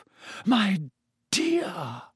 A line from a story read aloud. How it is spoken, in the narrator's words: Professor Trelawney breathed